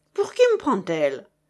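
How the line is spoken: Indignant exclamation. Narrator (French): s'exclama Chéri Bibi avec indignation

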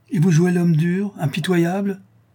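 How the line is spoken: Count exclaiming. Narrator (French): s'écria le comte

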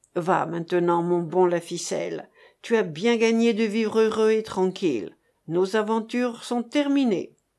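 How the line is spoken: Sighing. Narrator (French): chéri Bibi ne lui avait-il pas dit avec un soupir

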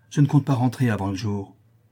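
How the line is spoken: Curt retort. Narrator (French): répliqua-t-elle sèchement

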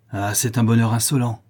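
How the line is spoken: Furious exclamation. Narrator (French): s'écria ma belle-mère avec rage

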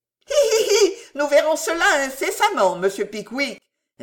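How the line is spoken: Sniggering. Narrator (French): ricana Monsieur Fogg

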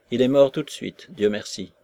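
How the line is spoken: Curt, spiteful voice. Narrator (French): répondit la Maslova d'une voix brève et méchante

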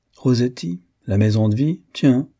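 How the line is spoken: Plain. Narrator (French): dit Farjas

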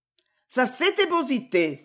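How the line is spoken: Exclamation. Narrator (French): s'écria Maud

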